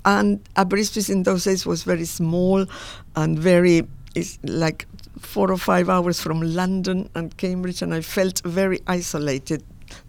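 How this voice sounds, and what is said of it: Argentine-accented English. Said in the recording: “with an Argentine accent”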